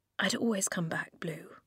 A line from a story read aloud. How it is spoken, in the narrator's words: he whispered